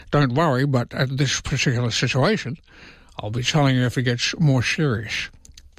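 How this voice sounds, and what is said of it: Imitates another person's voice. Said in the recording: “I just did the Elbow impersonation”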